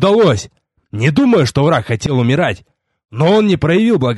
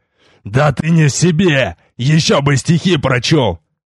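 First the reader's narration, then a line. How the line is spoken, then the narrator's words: Growled. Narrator (Russian): прорычал я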